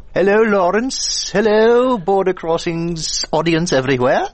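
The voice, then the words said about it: Sudden put-on Mrs. Doubtfire-style accent. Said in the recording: “you just suddenly drifted into an accent ... You become Miss Doubtfire.”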